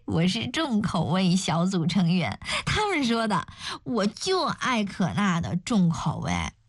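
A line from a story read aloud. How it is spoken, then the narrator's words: Sudden laugh. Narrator (Chinese): 邱莹莹忽然笑了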